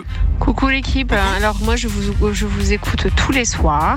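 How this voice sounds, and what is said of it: Southern French Marseille accent. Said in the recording (French): “je suis française et je viens de Marseille. Donc, je pense que vous pouvez entendre mon accent. ... l'accent du sud”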